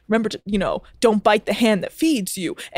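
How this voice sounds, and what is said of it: Imitated friend's accent. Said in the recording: “I'm sorry to do this sort of like accent... and this is how he talks”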